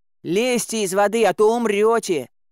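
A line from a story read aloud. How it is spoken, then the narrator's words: Shouting while running. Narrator (Russian): крикнул я, подбегая к ним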